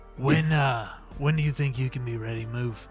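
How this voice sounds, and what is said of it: Roy Kent character voice. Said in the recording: “I have to channel my inner Roy Kent whenever I do this voice.”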